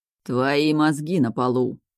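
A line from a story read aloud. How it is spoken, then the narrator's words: Growling voice. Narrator (Russian): рычащий голос Мурада справа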